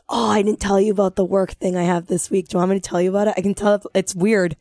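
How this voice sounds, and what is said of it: Raspy voice. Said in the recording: “My voice doesn't sound like this all the time ... it's not as raspy”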